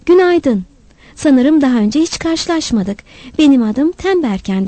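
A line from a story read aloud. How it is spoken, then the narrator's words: Warm, cheerful voice. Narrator (Turkish): Mümkün olduğunca candan ve neşeli bir sesle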